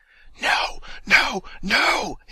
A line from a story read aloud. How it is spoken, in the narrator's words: hisses the voice in his ear